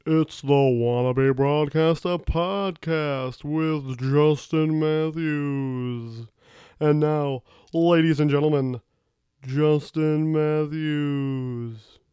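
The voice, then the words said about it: Bad Don Pardo announcer impression. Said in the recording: “Bad Don Pardo impression.”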